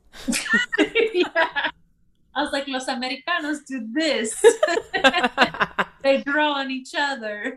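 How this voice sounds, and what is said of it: Accidental Italian-sounding accent. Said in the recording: “I hit an Italian accent by accident.”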